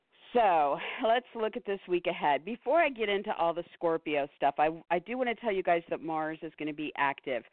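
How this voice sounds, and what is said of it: Tired, raspy voice. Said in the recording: “I'm a little tired, and my voice is going to be raspy”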